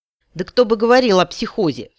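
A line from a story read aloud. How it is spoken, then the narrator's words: Snorting. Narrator (Russian): фыркнула я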